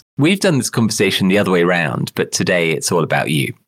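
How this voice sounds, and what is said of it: Lower-toned voice from a cold. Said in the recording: “recovering from man flu, actually, which has given me a rather lower tone to my voice”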